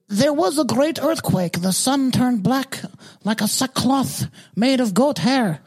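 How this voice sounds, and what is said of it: Put-on unidentified accent. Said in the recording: “What kind of fucking accent ... that? ... I'm going to be a voice impressionist.”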